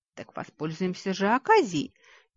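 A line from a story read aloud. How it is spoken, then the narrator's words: Predatory hiss. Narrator (Russian): хищно прошипел желудок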